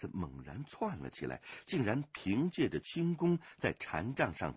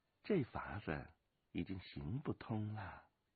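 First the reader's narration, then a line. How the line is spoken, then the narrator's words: Soft, amused. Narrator (Chinese): 飞鸿笑轻声说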